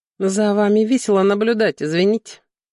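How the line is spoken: Conciliatory tone. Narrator (Russian): ответил он примирительным тоном

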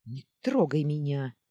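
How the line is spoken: Snapping retort. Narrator (Russian): огрызнулась Сеодара

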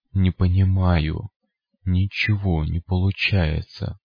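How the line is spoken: Whisper from lipless mouth. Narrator (Russian): прошептал безгубый рот

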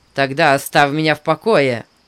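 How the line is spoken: Sharp. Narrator (Russian): резко вымолвил он

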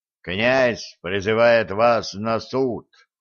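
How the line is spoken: Solemn proclamation. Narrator (Russian): торжественно провозгласил Волхв

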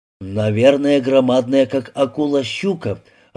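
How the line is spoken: Timid guess. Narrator (Russian): робко высказал предположение Сергей

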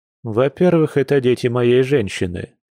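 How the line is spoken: Smirking reply. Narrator (Russian): с прищуром ответил мужчина, хмыкнув от такой заботы

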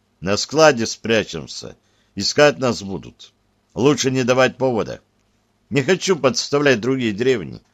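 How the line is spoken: Quiet reply. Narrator (Russian): негромко ответил я

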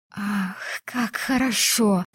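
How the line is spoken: Whisper. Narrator (Russian): прошептала она

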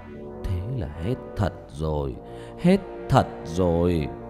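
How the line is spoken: Sighing old man. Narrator (Vietnamese): Ông ngoại Nhật lắc đầu thở dài, nói với Nhật

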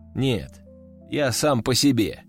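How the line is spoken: Calm reply. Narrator (Russian): спокойно отвечаю

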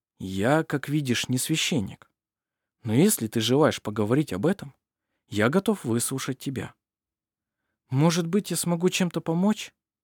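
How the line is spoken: Soft but firm. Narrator (Russian): мягко, но решительно произнес он наконец

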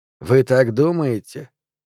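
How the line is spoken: Sighing. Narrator (Russian): он вздохнул

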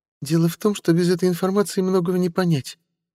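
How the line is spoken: Sighing. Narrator (Russian): вздохнула Тилирха

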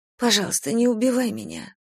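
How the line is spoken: Muttered. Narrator (Russian): пробормотала

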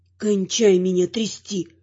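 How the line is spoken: Hoarse rasp. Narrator (Russian): хриплю

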